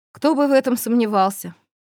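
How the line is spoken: Tired. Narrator (Russian): устало проговорил Кертон

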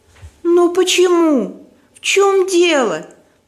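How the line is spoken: Moaning. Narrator (Russian): простонала Соломея

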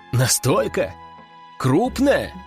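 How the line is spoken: Burst of laughter. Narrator (Russian): Я не выдержал и рассмеялся

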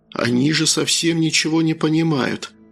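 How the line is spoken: Excited cultured inner whisper. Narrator (Russian): прошептал возбужденный интеллигентный голос у меня в голове

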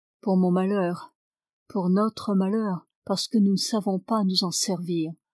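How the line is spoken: Low-voiced correction. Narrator (French): corrigea Duncan à voix basse

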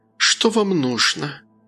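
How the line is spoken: Sighing. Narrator (Russian): Она, вздохнув, произнесла

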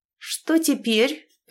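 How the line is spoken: Through gritted teeth. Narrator (Russian): процедила Агата

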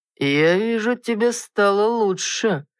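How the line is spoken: Drawling man. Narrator (Russian): протянул мужчина

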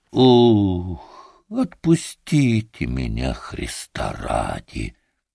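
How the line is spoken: Quiet, weary, repeated plea. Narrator (Russian): стонать он устал, лежа на боку, мордой в соломе, только повторял негромко

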